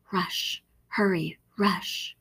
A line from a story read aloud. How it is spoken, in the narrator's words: I heard the whispers